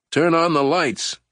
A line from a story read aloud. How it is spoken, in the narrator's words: several people were shouting